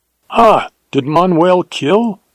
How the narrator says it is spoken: exclaimed the other, and it was certain that was news to him

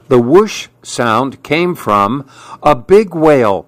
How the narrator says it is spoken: shouted Little Nof

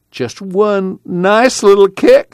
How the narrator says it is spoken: Jewel pleaded

